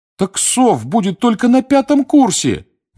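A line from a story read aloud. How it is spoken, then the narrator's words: Pleading. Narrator (Russian): взмолился Дин Томас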